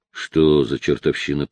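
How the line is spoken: Mutter. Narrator (Russian): пробормотал он

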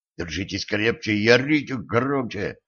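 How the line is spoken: Whisper. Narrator (Russian): шепнул он

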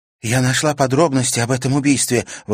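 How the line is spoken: Excited exclamation. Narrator (Russian): возбужденно воскликнула она

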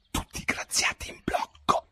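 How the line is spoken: King speaking quietly. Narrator (Italian): il re che a bassa voce diceva alla compagnia

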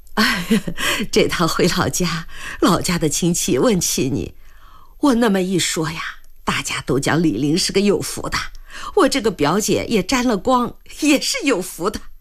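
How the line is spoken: Happy, smiling. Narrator (Chinese): 兰香整个人都愉悦起来，也笑着说

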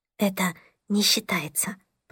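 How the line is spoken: Whispered. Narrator (Russian): прошептала Мия

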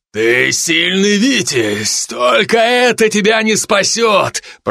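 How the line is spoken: Deep bass, foreign language. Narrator (Russian): пробасил на своем языке

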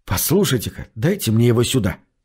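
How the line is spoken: Secretive whisper. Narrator (Russian): шепнул я, чтобы не услышал бармен

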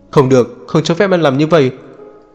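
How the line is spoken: Loud shout. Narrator (Vietnamese): Ông quát to

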